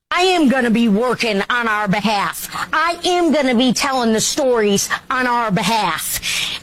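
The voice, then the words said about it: Noticeable regional accent. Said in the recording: “you got to hear the accent.”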